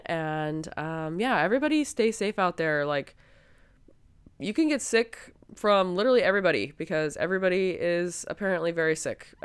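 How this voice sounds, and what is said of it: Sick, below-par voice. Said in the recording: “I'm very sorry that my voice is not up to par with how it typically is. I am working on, you know, getting healthy again.”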